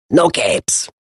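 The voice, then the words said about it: Imitates another person's voice. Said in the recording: “That's my Brad Bird impersonation ... the Edna Mode voice”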